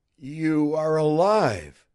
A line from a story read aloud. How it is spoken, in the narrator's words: he exclaimed